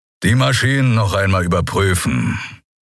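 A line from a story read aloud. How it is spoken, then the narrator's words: Growled. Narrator (German): knurrte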